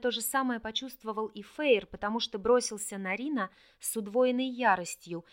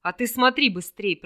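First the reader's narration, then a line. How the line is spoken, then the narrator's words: Booming drone. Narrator (Russian): прогудел Орлик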